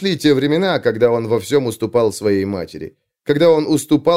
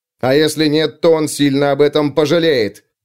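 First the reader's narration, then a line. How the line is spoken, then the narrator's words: Barked. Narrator (Russian): рявкнул Лео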